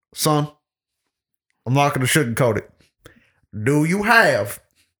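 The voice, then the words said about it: Put-on country accent. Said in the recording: “I don't know why I go country accent.”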